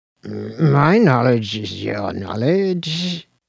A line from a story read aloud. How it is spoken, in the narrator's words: mumbled Slopes, regaining his composure